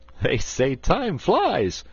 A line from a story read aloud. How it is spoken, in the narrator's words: laughed Button-Bright